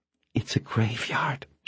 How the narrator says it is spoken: she whispered

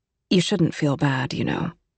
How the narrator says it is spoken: said Miss England quietly to Miss Cooper

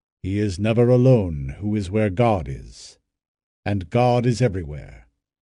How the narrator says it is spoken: Balthazar answered gravely

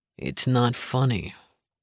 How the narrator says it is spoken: Link muttered

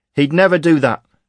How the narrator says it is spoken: cried Mariella, her face screwed up in rage

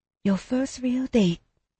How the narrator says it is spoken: she whispered

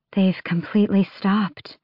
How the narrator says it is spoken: breathed the shapeshifter beside Adian

